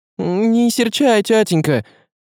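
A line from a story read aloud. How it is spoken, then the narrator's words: Pleading. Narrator (Russian): взмолилась Марьяша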